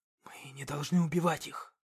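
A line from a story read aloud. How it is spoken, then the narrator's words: Whisper. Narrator (Russian): прошептал он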